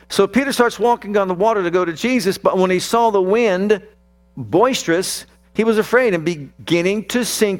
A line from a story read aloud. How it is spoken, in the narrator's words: he cried, saying